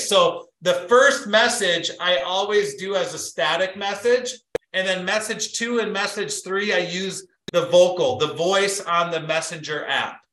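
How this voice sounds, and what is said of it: Talking very loudly. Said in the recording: “I'm talking really loud”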